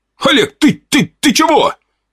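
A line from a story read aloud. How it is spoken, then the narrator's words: Shouted out. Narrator (Russian): выкрикнул полицейский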